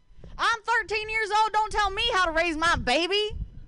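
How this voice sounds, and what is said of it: Put-on country accent. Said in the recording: “could you talk to me, but, like, in a country accent? ... I'll try.”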